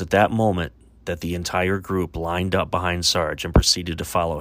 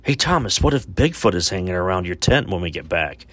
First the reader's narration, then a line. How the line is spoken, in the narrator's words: one of the friends called out to him